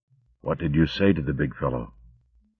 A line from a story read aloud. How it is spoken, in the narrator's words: Martin murmured to her